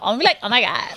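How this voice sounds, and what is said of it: Valley girl accent. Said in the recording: “I'm going to be a valley girl ... you're going to sound like a Kardashian.”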